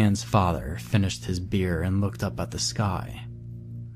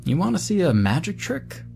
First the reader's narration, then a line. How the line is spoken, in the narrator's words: he asked me excitedly